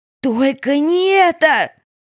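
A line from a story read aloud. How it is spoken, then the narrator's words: Screamed. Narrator (Russian): Шарли закричала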